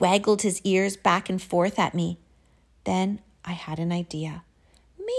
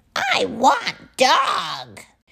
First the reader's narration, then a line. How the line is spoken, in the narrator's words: The troll squealed and growled